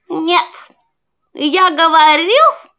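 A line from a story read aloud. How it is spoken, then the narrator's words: Rooster shouting. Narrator (Russian): Петух закричал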